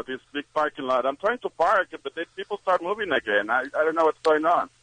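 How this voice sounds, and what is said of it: Mexican-accented English. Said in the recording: “You have a very sexy accent.”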